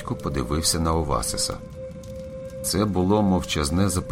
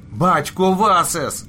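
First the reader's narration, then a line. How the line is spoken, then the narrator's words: Shouting. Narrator (Ukrainian): закричав він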